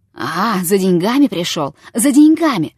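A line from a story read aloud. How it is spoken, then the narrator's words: Wheezing, choked. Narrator (Russian): захрипел, словно не он душил, а его душили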